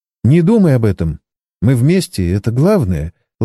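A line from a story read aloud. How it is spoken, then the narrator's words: Tender. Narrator (Russian): ласково произнесла она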